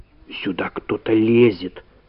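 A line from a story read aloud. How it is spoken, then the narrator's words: Whisper. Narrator (Russian): шепнула Валя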